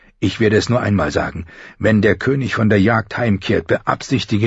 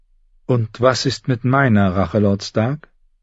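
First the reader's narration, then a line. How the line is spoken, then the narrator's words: Gentle question. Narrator (German): fragte sie sanft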